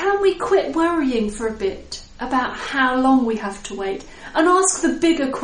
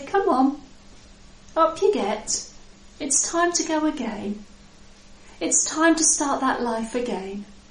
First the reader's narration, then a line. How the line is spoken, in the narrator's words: He can just come very gently to you and say